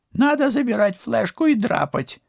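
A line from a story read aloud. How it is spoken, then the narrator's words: Crook whining. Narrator (Russian): заскулил жулик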